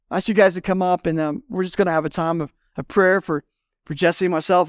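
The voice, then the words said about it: Strained, failing voice. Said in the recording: “I'm about to lose my voice,”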